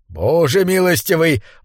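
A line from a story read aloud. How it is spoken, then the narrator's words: Exclamation. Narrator (Russian): воскликнул Бурхард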